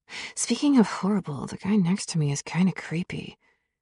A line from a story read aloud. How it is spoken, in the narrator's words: I whispered in an even lower tone